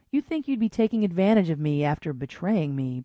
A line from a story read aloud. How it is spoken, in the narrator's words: purred Destiny